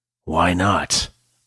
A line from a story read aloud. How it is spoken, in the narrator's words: Blackthorn growled